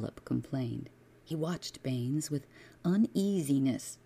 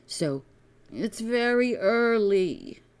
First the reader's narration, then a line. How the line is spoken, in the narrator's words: he whined